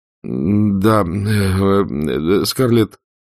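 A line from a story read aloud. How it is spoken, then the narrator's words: Stammering. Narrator (Russian): запинаясь, сказал он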